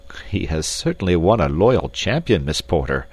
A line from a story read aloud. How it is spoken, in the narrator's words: said Captain Dufresne, laughing